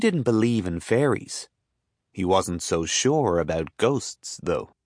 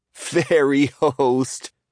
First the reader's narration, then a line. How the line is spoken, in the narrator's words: Paul laughed quietly